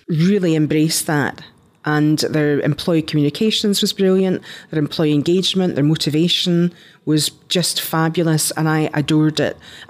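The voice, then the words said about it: Scottish accent. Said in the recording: “They love my accent. ... Americans love a Scottish accent”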